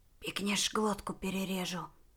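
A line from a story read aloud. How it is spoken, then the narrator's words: Barely audible threat. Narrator (Russian): чуть слышно пообещал он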